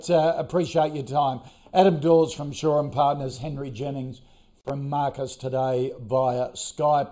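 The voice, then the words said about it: Strained, fading hoarse voice. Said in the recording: “I'm starting to lose my voice”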